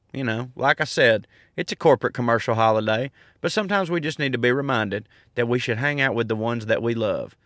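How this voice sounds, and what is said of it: Soothing Southern American accent. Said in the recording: “my soothing, sexual Southern accent”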